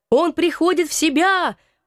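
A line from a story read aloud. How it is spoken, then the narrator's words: Sudden shout from crowd. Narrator (Russian): вдруг закричал кто-то из толпы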